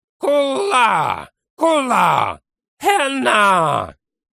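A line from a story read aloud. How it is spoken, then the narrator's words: Inhuman howl. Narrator (Russian): Взвыл он нечеловеческим голосом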